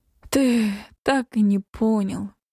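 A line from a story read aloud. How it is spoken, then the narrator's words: Moaning. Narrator (Russian): простонала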